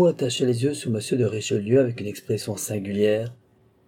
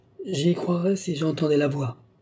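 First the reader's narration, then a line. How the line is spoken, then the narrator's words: Exclaimed, duke. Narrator (French): s'écria le duc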